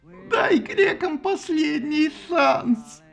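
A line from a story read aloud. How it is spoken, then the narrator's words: Tearful babbling. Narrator (Russian): сквозь слезы пролепетала Афина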